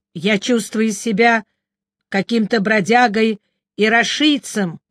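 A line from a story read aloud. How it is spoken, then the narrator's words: Said angrily. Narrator (Russian): сердито сказал мой друг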